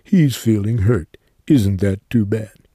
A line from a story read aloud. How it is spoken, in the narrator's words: all his friends chimed in laughing